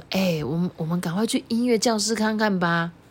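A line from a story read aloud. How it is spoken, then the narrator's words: Very quiet voice. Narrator (Chinese): 庄司啊就很小声的说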